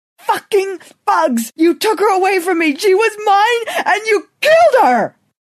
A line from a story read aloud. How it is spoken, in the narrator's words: finding enough anger and desolation to scream louder